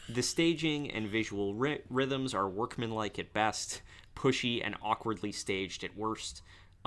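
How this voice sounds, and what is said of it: Noticeable accent. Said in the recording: “I'm just listening to your accent.”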